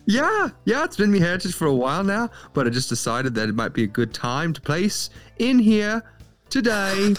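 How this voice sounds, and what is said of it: Put-on Irish accent, partly Australian. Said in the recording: “Are you doing an Irish accent today? ... there's a lot of accent merging going on. It's like partially Irish, partially Australian”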